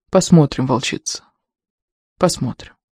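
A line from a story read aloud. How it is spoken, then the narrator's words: Anticipatory whisper. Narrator (Russian): прошептал Геральф, и в его голосе звучало предвкушение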